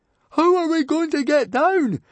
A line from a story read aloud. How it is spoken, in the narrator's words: shouted Fishlegs, because they were still so high that he had a sudden vision of them sailing right over the archipelago and beyond